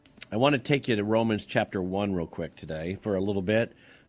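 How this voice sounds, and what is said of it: Voice affected by illness. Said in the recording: “I apologize for my voice. Got whatever this is. It's pretty much going around the country for everybody”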